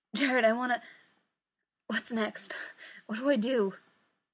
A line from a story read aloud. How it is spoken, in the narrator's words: His voice is pained, desperate